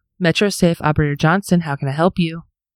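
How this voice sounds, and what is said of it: Polished customer service phone voice. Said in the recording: “Did they give us the voice you did? ... That's my customer service voice.”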